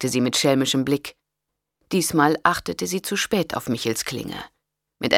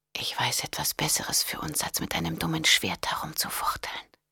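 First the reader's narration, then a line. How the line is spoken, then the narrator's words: Whisper. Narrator (German): flüsterte sie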